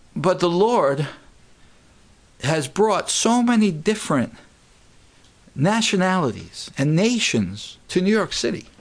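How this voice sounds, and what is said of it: New York accent. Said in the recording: “I live in New York City. ... I know you could tell that by my accent”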